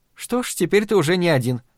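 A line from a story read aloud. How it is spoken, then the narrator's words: Almost cheerful. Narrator (Russian): почти весело заметила Надин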